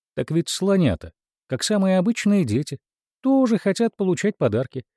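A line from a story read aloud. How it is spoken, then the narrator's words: Elephant king exclaiming. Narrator (Russian): воскликнул король слонов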